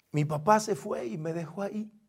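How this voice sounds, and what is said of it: Breaking, tearful voice. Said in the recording (Spanish): “Todavía se me quiebra la voz, todavía se me humedecen los ojos.”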